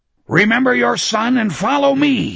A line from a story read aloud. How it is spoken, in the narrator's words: Sloat roared